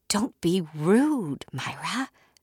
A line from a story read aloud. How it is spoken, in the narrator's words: I whispered, just as stunned as she was to see them